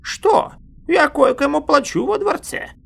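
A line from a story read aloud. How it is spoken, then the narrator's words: Satisfied snort. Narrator (Russian): Дорин хмыкнул, удовлетворившись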